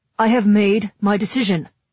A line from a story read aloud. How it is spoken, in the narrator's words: he says, raising his voice to cut me off